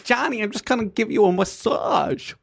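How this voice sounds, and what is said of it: Put-on New York accent. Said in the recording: “What was that accent? ... New York.”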